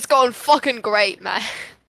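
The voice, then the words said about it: Attempted crow voice, sounds British. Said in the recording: “I don't know how to make crow voice. That just sounded British.”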